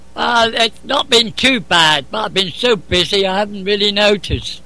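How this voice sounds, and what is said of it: Noticeable accent. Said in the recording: “I love your accents. I love it.”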